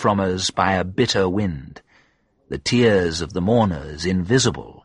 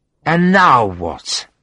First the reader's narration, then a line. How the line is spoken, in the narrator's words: said in a slurred voice